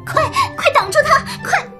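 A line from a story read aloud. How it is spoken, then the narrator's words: Frightened panicked shout. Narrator (Chinese): 蛇精吓得抱头鼠窜，冲手下大喊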